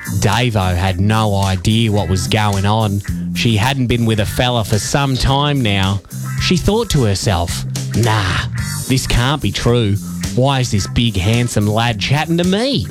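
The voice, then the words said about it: Exaggerated put-on Australian accent. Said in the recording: “my Australian accent. I'll dial it up, obviously.”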